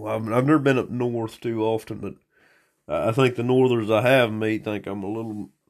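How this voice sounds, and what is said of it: Regional accent. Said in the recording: “haven't really liked my accent too much ... get rid of your accent”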